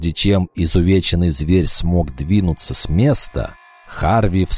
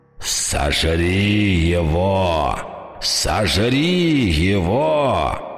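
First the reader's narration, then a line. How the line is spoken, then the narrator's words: Growling vampire king. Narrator (Russian): зарычал король вампиров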